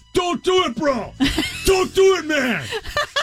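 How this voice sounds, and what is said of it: Shouted Massachusetts accent. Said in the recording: “yells in full Massachusetts accent”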